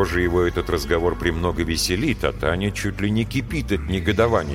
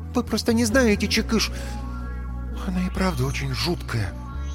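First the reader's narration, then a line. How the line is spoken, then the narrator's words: Quiet confession. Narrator (Russian): Негромко признается она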